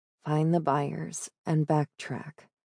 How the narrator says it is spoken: Rivka murmured, thinking aloud

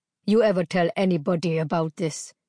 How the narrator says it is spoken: snarled

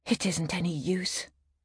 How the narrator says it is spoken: muttered from behind a rather large potted palm

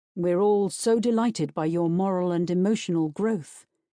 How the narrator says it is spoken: Finn says dryly

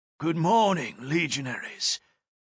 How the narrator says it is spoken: a deep, raspy voice greeted

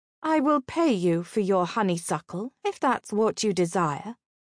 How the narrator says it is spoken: she said icily, drawing on her court training

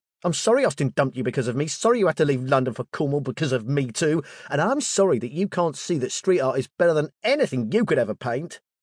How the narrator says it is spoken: He blew up, yelling

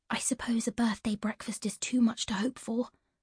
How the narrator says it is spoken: Ivy whispered

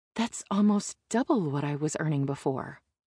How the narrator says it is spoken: I whisper

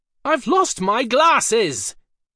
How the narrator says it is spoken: He shouted back into sudden silence

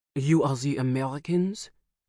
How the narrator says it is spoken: he said in a heavy French accent

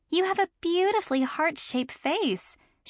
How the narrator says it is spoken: said sweetly

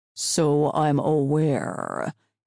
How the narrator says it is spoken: he drawled, showing not one spark of fear

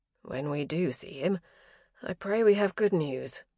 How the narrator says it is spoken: Philippe said with a sigh

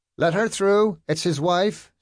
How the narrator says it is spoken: someone shouted

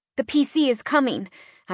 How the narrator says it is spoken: I said, my voice shaking slightly

